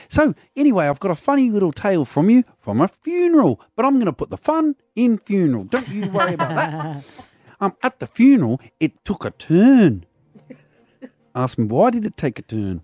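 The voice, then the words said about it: Faltering put-on Kiwi accent. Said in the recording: “You're not sounding particularly Kiwi ... Is my accent faltering? ... It's too high. Let's bring it down.”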